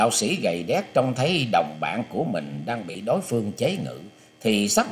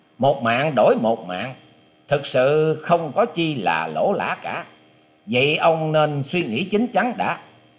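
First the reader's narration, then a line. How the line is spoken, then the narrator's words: Young man, smiling. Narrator (Vietnamese): chàng thiếu niên áo trắng bèn mỉm cười nói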